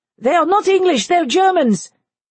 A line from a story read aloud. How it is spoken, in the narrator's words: His aide, Major Marchand, cried